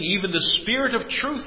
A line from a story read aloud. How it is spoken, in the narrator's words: he says